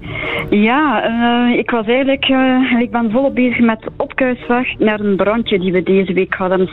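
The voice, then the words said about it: East Flemish accent. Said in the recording (Dutch): “jij hebt een Oost-Vlaams accent, dat hoor ik al meteen”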